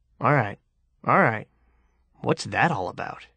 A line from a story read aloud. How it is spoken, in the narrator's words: Levi muttering